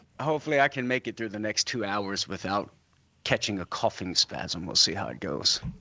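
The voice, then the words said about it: Froggy, deep voice from a cold. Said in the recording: “I got some kind of cold going on, and so that's why I sound a little froggy, although I can talk with this deep, deep voice.”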